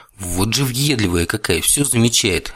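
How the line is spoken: Irritated inner thought. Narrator (Russian): раздраженно подумал я

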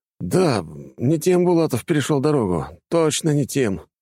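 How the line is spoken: Sighing. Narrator (Russian): вздохнул офицер

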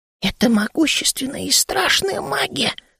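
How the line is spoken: Frightened whisper. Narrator (Russian): прошептал Ми, и шерстка на его спине встала дыбом

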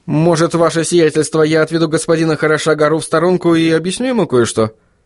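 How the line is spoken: Quick suggestion. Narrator (Russian): быстро предложил он

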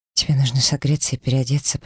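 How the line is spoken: Murmur. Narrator (Russian): пробормотала я

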